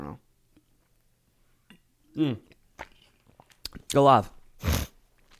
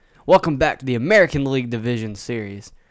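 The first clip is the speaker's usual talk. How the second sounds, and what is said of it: Put-on radio announcer voice. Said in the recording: “My voice sounds good, doesn't it? Do I have a radio voice?”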